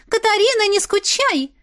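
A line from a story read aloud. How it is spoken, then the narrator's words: Shouting. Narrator (Russian): прокричала она уже мне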